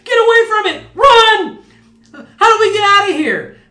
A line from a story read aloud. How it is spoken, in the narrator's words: a cacophony of screams and shouts